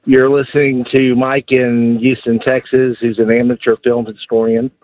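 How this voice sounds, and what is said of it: Baltimore-sounding American accent. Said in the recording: “You from Baltimore? Are you Maryland guy? Do I hear this in your voice? ... Philly? ... That's not a Houston accent. ... I thought you sounded like you're straight from Dundalk”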